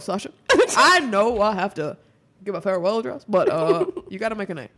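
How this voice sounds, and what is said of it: Barack Obama impression. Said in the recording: “I've really been practicing my Obama impression ... They've gotten much better since yesterday.”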